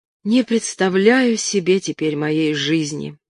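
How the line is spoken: Dejected. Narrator (Russian): уныло сказала Марина

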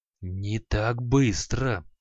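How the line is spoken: Hissing. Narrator (Russian): прошипел Халай

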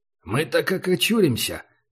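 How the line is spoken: Grumbled. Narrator (Russian): пробурчал Убер

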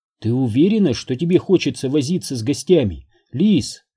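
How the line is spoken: Gentle question. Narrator (Russian): мягко осведомилась Энн

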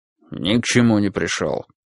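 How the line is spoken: Gruff grumble. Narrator (Russian): буркнул Финлей

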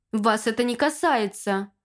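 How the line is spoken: Angry snap. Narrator (Russian): Зло кинул он

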